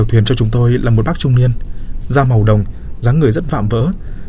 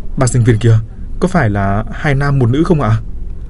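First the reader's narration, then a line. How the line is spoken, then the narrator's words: Trembling question. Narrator (Vietnamese): tôi run rẩy hỏi thêm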